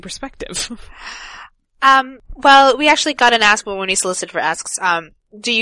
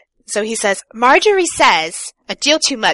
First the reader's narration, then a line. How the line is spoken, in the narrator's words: Cersei snapped